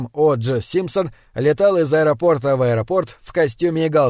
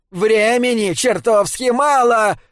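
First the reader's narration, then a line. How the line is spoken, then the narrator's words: Shouting. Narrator (Russian): прокричал Крейг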